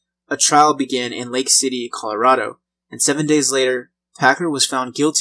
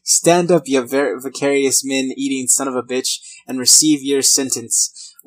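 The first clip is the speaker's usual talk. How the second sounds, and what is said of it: Put-on Irish accent. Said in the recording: “speaking like an Irish accent ... I'm just gonna go with the accent.”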